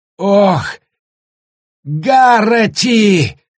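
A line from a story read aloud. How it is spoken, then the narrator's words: Shouted. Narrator (Russian): закричал он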